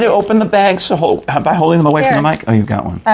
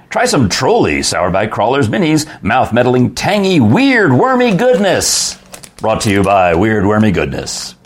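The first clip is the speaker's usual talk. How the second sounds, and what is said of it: Radio DJ announcer voice. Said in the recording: “Read this in your voice. ... In my DJ voice?”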